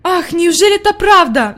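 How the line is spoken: Grandmother's sigh. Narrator (Russian): вздохнула бабушка

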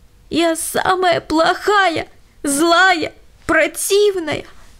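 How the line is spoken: Sobbing. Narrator (Russian): всхлипывала Лена

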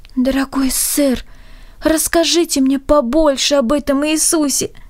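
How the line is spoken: Touchingly pleading voice. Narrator (Russian): сказала трогательно умоляющим голосом

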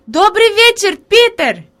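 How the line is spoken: Girl shouting. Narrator (Russian): Девочка крикнула

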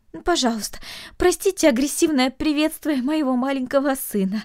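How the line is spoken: Pleading mother. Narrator (Russian): взмолилась мать

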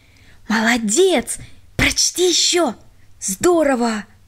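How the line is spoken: Whispers from all sides. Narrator (Russian): со всех сторон шептали

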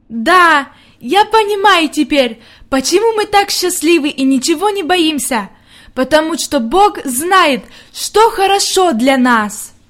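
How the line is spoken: Loud. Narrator (Russian): она громко сказала

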